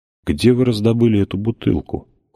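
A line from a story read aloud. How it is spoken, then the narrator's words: Cold question. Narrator (Russian): холодно спросил Кассат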